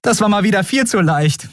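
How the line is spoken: Laughing. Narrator (German): sagte sie lachend

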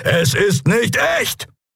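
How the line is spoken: Called out. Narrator (German): rief

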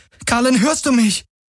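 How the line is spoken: Called out. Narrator (German): rief sie

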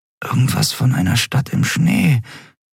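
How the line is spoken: Murmured. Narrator (German): murmelte Endriel

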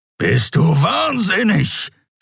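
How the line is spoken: Creature growling. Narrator (German): knurrte der Skria

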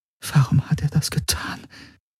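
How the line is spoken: Whispered. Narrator (German): flüsterte Kirai

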